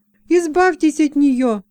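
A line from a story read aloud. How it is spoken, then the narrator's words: Commanding exclamation. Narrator (Russian): воскликнула, повелительно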